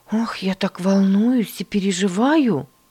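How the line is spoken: Exclamation. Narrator (Russian): воскликнула она

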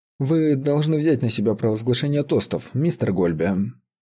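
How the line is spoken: Casual tone. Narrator (Russian): сказал он своим небрежным тоном

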